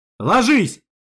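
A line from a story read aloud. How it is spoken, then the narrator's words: Barked shout. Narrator (Russian): рявкнул я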